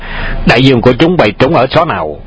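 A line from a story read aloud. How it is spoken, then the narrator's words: Loud bark. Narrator (Vietnamese): Hoàng Dược Sư quát lớn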